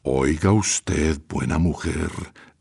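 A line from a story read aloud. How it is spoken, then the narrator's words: Low menacing voice. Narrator (Spanish): dijo en voz baja, sombría y amenazadora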